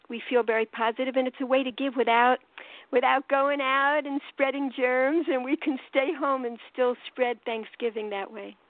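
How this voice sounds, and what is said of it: New York accent. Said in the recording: “I'm from New York, as you could tell from my accent.”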